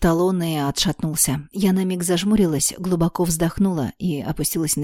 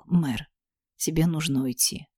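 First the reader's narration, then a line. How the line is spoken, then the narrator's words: Husky declaration. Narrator (Russian): Тейлор с хрипотцой в голосе заявил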